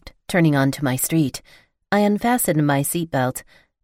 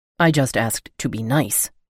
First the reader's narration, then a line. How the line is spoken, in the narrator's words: he said in a stern tone